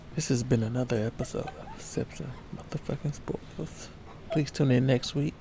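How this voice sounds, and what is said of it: Put-on sexy voice. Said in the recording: “Let me get my sexy voice.”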